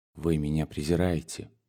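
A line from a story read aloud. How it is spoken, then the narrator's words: Quiet. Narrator (Russian): тихо сказал он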